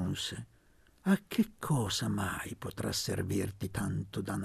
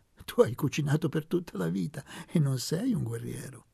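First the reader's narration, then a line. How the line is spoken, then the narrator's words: Laughing. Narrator (Italian): aggiunse ridendo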